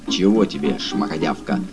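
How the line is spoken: Contemptuous through teeth. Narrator (Russian): презрительно процедил он

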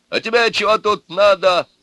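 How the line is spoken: Father yelling. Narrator (Russian): заорал отец невесты

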